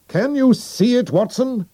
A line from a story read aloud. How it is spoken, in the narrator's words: He shouted